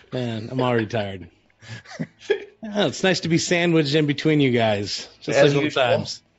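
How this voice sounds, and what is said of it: Put-on new voice with lisp. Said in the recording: “He's got a new voice, too... I'm trying a new voice out... He's got the Tuesday night lisp.”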